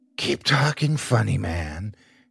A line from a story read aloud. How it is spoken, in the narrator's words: she whispered